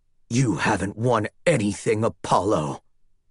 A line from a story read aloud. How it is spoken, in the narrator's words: he growled